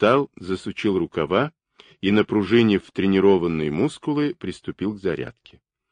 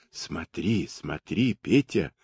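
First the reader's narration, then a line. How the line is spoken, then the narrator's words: Whispering. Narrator (Russian): шептала Маша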